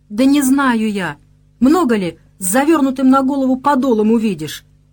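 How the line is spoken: Angry cry, then sobbing. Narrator (Russian): вскрикнула та зло и вновь разрыдалась

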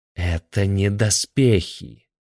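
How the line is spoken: Venomous drawl. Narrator (Russian): ядовито протянул Захар Сергеевич Третьяков

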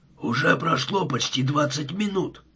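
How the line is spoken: Muttered. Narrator (Russian): пробормотал он

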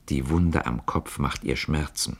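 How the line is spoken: Said quietly. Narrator (German): Herr von Galais sagte leise

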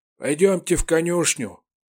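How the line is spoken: Cheerful gruff mutter. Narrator (Russian): весело буркнул хозяин дома

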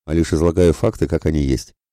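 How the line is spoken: Brisk snapping retort. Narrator (Russian): бойко огрызнулся Емельян

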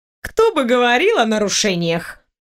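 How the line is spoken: Scoffing snort. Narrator (Russian): Хмыкнула я

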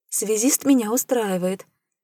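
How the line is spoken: Cheerful young woman. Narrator (Russian): бодро заявила девушка

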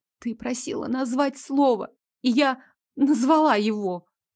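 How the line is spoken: Trembling, anxious voice. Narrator (Russian): Дрожащим голоском отозвалась я, гадая, не делаю ли я сейчас самую большую ошибку в жизни

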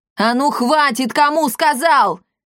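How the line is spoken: Father shouting. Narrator (Russian): Снова крикнул папаша Сандавал

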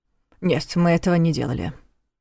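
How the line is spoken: Flat, toneless objection. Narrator (Russian): бесцветным тоном возразил Нев

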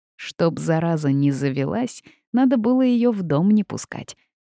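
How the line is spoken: Scoffing snort. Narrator (Russian): снова хмыкнула Васька

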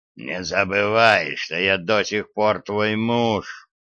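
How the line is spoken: Hoarse rasp. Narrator (Russian): прохрипел

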